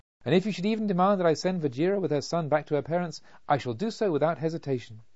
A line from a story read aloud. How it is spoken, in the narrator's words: cried